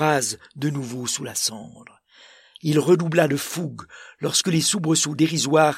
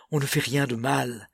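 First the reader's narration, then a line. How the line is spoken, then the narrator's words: Panting. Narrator (French): haletait-il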